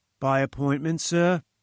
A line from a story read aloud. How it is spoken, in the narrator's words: he asked